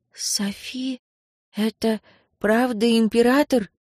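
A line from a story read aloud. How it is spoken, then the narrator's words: Rustling whisper in chorus. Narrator (Russian): прошелестели они хором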